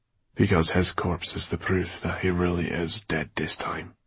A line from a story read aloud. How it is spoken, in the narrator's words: said Dustfinger bitterly